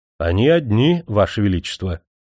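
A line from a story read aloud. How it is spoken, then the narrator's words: Calm reply. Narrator (Russian): спокойно ответил лакей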